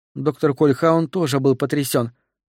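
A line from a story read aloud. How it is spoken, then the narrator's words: Plain. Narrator (Russian): сказала Натали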